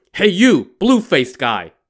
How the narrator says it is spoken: the monk shouted

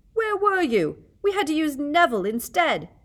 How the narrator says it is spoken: Wood was yelling

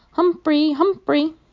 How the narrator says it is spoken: shouting

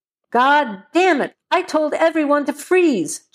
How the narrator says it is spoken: Joe shouted

